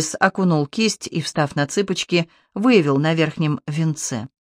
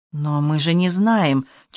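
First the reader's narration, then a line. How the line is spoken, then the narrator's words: Uncertain objection. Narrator (Russian): Чибис возражал неуверенно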